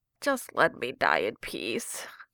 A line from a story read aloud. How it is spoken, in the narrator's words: moaned, though it came out sounding more like